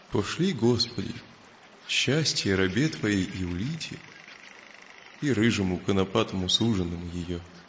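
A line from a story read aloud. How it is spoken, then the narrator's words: Sad, barely audible. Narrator (Russian): Грустно улыбнулся Илья и сказал чуть слышно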